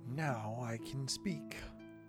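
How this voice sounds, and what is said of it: Mushy character voice. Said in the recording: “in a somewhat mushy voice”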